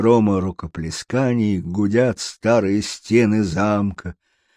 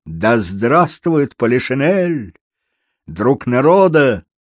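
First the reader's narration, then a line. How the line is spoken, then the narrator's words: Shouted. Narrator (Russian): голос, который первый крикнул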